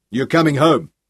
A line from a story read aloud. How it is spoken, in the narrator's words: he told Dirk harshly